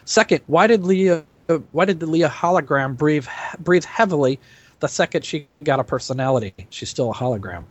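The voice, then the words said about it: Thick accent. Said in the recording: “I can only apologize for my thick accent.”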